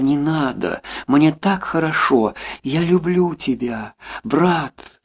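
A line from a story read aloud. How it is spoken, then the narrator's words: Moaning. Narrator (Russian): простонала, вспомнив все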